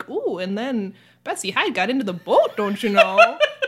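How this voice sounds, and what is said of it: Exaggerated Minnesota accent. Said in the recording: “my Minnesota accent ... I made sure to not sound like ... Because it could have sounded like that.”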